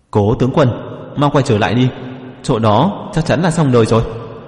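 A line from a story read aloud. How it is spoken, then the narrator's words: Loud. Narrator (Vietnamese): Có người lớn tiếng mà nói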